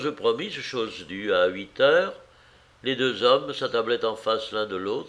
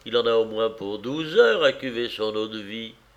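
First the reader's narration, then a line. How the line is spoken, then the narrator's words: Grumbled. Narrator (French): grommela le chef de dépôt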